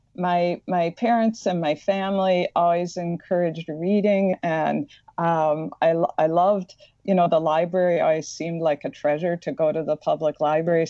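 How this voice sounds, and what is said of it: Slight Midwestern American accent. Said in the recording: “I have a slight Midwestern accent that comes out”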